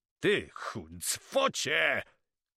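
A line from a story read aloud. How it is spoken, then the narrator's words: Shouting. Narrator (Polish): krzyczał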